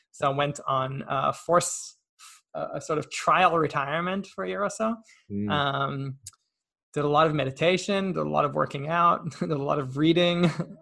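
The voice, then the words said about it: American-sounding accent. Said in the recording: “despite this fake accent, I'm not American”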